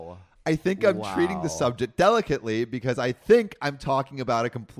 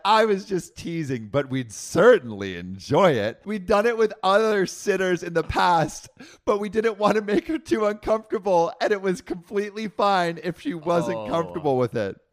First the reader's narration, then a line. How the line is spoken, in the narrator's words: laughed and said